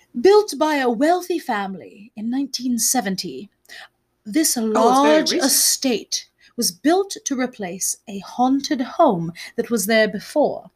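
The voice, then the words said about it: Terrible put-on British accent. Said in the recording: “I'm going to do a terrible British accent.”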